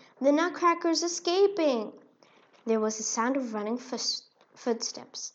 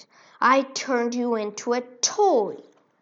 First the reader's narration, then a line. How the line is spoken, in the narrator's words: exclaimed